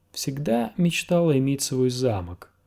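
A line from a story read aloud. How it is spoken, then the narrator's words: Purring. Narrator (Russian): промурлыкала она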